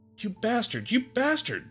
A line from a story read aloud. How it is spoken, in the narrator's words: the bird screeched